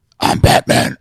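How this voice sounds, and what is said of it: Batman voice impression. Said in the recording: “my impersonation of Batman”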